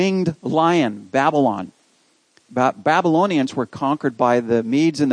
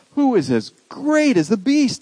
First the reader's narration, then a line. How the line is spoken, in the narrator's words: They exclaimed